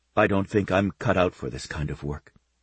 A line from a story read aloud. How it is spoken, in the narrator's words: she said quietly